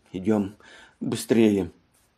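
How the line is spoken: Muttering. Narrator (Russian): бормотала Матильда

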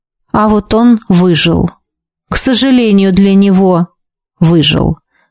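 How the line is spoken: Dull, muffled reply. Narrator (Russian): глухо отозвался магистр Шарес

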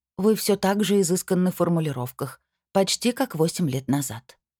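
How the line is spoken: Even, level voice. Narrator (Russian): произнесла она ровным голосом

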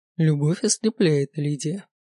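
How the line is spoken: Gloomy. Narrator (Russian): мрачно произносит Виктор Петрович

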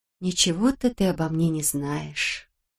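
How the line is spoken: Tender speech. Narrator (Russian): нежно сказала Беатрис

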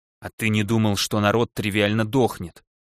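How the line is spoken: Angry question. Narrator (Russian): зло спросил он

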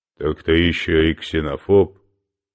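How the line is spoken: Cold question. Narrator (Russian): холодно поинтересовался Мандела

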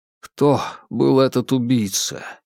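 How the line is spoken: Quiet question. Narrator (Russian): тихо спросил Джеймс

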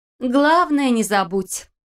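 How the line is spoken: Laughing. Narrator (Russian): рассмеялась Лиля

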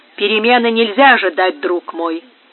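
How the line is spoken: Gloomy. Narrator (Russian): мрачно отвечал Серано

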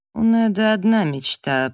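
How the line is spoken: Through gritted teeth. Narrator (Russian): процедил Дэниел

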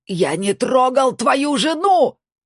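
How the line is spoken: Desperate shout. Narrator (Russian): отчаянно закричал он

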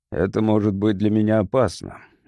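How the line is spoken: Displeased grumble. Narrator (Russian): недовольно проворчал напарник

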